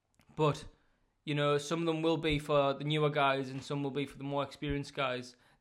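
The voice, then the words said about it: Northern English accent. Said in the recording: “my Northern accent”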